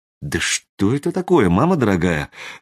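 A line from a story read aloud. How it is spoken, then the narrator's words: Bewildered question. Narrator (Russian): растерянно спросила Ирина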